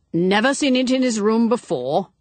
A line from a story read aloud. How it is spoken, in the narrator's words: said Graham sharply